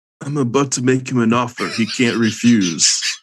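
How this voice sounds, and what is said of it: Godfather mob boss impression. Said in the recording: “best godfather Marlon Brando impression ... That's a good one.”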